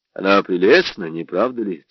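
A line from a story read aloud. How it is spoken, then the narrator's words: Plain question. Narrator (Russian): спросил я Эслингера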